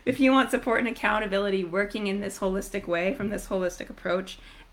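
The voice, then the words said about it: Strained, failing voice. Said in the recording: “losing my voice”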